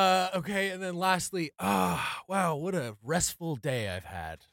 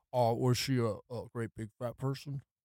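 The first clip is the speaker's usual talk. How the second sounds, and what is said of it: Impression of Philip Seymour Hoffman. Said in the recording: “Do your best impressions ... Is that Philip Seymour Hoffman? ... Yep.”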